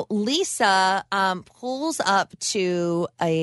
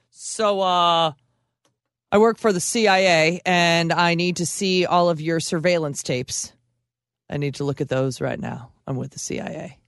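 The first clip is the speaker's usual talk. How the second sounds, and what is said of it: Imitates another person's voice. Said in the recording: “It's a good impression.”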